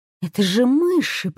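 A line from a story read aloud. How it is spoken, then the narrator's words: Muttering. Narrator (Russian): пробормотала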